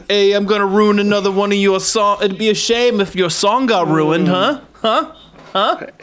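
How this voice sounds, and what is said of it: Put-on Brooklyn accent. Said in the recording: “What accent is this? ... I don't know. Brooklyn, ... I guess.”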